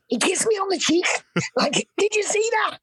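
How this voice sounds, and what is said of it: Excited Scouse accent. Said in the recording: “my mum's from Liverpool. She was like, in her excited Scouse accent”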